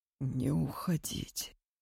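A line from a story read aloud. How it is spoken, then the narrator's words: Quiet and hoarse. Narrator (Russian): Тихо, хрипло повторил Сокольский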